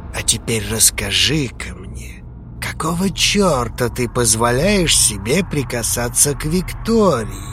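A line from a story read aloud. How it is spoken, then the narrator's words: Deceptively soft. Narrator (Russian): Обманчиво мягко произнес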